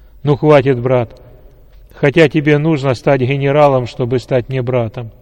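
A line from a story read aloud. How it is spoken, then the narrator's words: Loud. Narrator (Russian): громко сказал генерал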